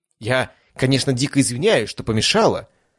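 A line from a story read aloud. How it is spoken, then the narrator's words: Fairly loud. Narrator (Russian): начала достаточно громко, чтобы ее услышали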